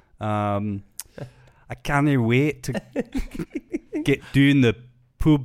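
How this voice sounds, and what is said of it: Put-on Scottish accent, fairly good. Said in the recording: “your Scottish accent... You're quite good... You're quite good at them.”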